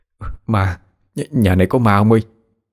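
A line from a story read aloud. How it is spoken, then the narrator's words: Stammering. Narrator (Vietnamese): Một người lắp bắp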